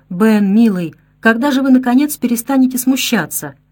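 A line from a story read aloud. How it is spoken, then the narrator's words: Exclamation. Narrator (Russian): воскликнула Кэт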